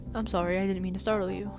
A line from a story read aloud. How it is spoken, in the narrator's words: he said quickly